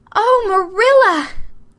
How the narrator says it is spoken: gasped Anne

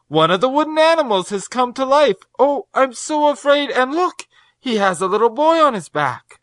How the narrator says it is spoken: cried the girl

